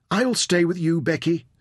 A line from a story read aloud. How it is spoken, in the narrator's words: Saffron cried